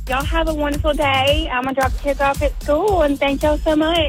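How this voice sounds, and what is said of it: Local regional accent. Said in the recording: “he's born and raised here as well. So he says things like ole. He says like crawfish bowl. ... we do love your accent. We really do. And I think it's the cutest thing.”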